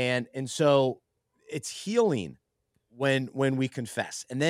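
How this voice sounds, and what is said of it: Usual voice. Nothing is said of it.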